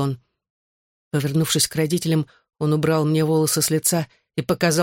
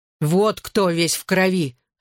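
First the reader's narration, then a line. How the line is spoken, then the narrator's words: Barked. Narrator (Russian): рявкнул Джоуи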